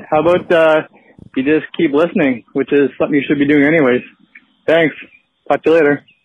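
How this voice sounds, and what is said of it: Canadian accent. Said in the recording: “Sweet Canadian accent.”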